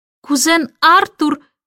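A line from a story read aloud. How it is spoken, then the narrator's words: Shout through keyhole. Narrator (Russian): крикнула она в замочную скважину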